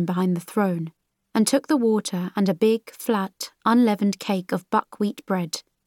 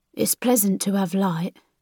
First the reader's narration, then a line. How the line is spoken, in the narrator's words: he said, in the soft but deep voice